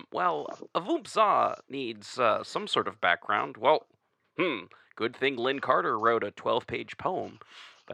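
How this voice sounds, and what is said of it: Imitates another person's voice. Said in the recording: “my terrible Ken Haidt impersonation”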